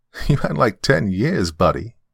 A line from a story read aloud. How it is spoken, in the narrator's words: she laughed